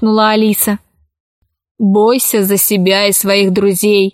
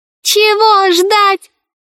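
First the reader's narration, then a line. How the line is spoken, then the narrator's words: Shrill squeal. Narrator (Russian): завизжал мяч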